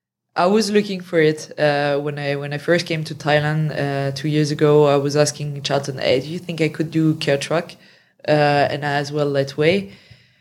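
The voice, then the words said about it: French accent. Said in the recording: “French accent”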